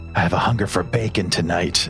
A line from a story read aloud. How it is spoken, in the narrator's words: whisper into Solas's ear